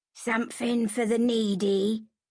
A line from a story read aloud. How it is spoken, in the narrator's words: he croaked